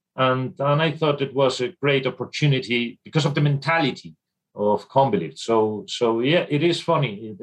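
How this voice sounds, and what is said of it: Irish-accented English. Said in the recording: “there's a distinct Irish accent there in your English”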